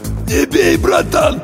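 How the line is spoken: Hoarse wheeze. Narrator (Russian): прохрипел боец

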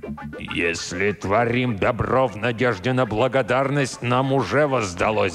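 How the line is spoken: Roar. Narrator (Russian): взревел мистер Уильямс

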